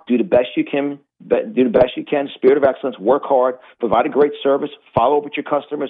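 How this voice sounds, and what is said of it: Strong Rocky-style American accent. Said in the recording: “Like my accent, ... as soon as I open up my mouth, the accent comes out of me ... the accent of America is like Rocky”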